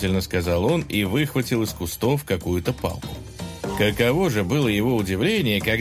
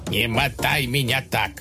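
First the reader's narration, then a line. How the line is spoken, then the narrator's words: Heron grumbling. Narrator (Russian): проворчала цапля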